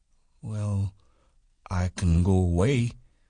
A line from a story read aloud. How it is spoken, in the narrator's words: said Lenny